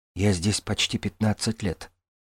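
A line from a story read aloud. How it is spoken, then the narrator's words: Quiet. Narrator (Russian): тихо сказал Байкину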